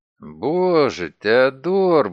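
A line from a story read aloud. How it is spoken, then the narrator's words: Forced out. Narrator (Russian): выдавил я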